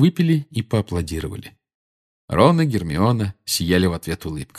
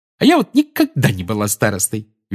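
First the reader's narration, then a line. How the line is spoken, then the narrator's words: Cheerful. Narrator (Russian): весело сказала Тонкс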